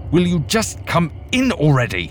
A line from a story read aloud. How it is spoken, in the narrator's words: shouting